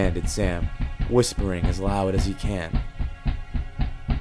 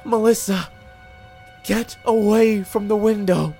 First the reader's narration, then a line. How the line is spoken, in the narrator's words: Sam begged